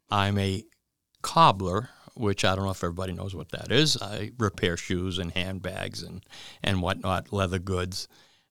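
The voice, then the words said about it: Good radio voice. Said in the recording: “we think he sounds really good ... he has a great radio voice.”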